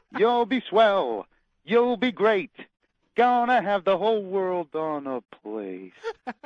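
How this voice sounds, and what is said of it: Sung imitation of another person's voice. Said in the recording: “do a little Ethel Merman impression ... That was pretty good. You didn't quite hit the high notes there, but that was pretty good.”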